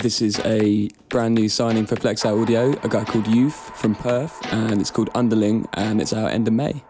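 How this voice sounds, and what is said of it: Polished professional radio presenter voice. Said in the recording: “Your voice sounds like we haven't actually got you in the studio. It's like you've recorded all of this and then I press play on a little pad. ... This is a proper radio voice.”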